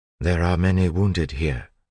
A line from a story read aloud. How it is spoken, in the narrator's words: Sazed said